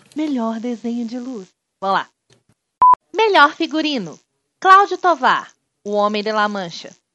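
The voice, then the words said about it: Flight attendant announcement voice. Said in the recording (Portuguese): “fazendo voz de comissário de bordo”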